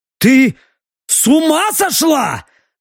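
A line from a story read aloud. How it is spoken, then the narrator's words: Angry bark. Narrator (Russian): рявкнул он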